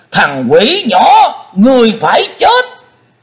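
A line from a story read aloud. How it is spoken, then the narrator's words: Demon roaring. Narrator (Vietnamese): Xích Phát Âm Ma dựng đứng chòm tóc đỏ, hắn gầm vang lên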